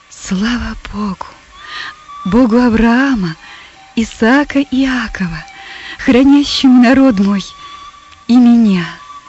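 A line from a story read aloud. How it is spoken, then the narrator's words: Awed triumphant whisper. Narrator (Russian): Персида, охваченная торжеством и величием открывшейся картины, прошептала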